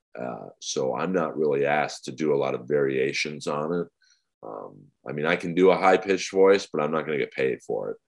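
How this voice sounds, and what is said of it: Very deep, dry, monotone voice. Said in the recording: “my voice is my voice. It's very deep. ... It's very dry and very monotone.”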